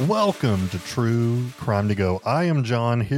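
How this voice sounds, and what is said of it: Usual voice. Nothing is said of it.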